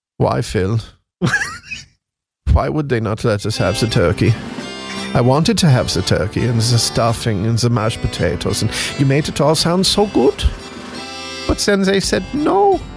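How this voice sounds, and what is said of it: Put-on German accent. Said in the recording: “Do your German impression.”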